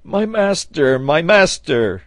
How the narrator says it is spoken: cried Neb

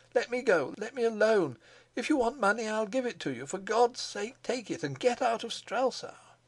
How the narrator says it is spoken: cried he

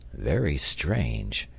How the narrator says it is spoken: murmured the engineer

